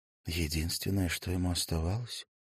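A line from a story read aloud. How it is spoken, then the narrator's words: Whispering. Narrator (Russian): прошептала Лира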